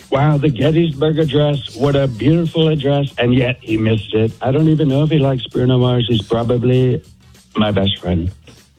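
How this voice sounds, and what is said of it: Imitates another person's voice. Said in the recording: “I can do Trump ... let's hear President Trump ... Okay, that's really good. That's really good”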